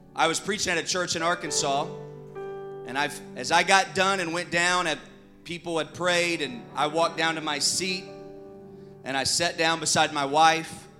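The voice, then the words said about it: Arkansas Southern accent. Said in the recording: “I have an accent, I'm sure. So if I say some words, you're like, what does that mean? It's just chalk it up to Arkansas.”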